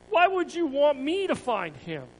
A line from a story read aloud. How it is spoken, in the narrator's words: Ananias asked